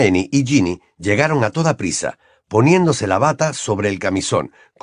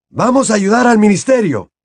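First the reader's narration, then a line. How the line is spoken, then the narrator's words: Man shouting over noise. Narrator (Spanish): gritó el señor Weasley por encima de todo aquel ruido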